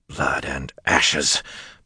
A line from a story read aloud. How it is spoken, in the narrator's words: Perrin grumbled